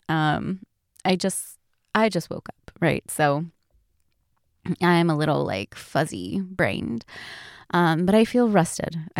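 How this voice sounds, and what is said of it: Groggy, just-woke-up voice. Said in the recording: “I am a little groggy. I don't know if you can hear it in my voice”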